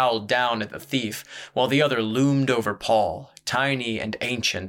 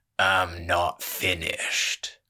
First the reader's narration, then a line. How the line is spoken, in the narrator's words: growled the jackdaw